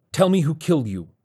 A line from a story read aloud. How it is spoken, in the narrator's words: Vargas said urgently